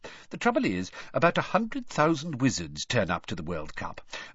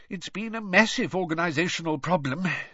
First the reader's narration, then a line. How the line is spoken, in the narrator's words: sighed Mr